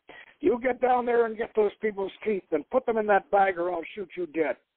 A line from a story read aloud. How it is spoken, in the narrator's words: Corporal Kuzik barked